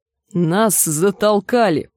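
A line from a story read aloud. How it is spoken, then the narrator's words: Growled. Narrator (Russian): прорычала Гленда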